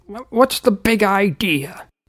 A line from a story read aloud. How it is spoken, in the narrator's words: Uncle Seamus called out